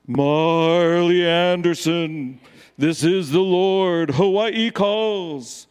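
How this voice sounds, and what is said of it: Deep, booming God-like voice. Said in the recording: “put on my best God voice”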